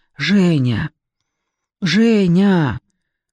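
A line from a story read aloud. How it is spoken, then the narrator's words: Hoarse creature voice. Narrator (Russian): произнесло существо хрипло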